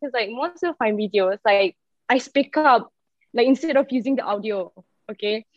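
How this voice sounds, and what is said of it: Malaysian English accent. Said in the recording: “about my accent ... I'm Malaysian”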